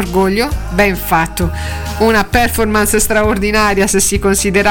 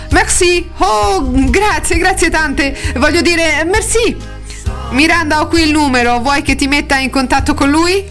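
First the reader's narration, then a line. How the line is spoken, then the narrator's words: Exclaiming. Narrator (Italian): Emily esclamando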